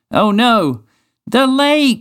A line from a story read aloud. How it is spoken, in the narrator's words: shouted